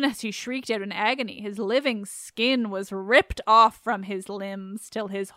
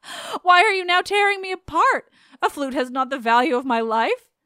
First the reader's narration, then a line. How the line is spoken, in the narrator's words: And as Apollo punished him, he cried